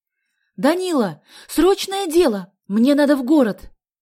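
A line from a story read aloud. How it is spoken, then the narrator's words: Shouted. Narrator (Russian): крикнула она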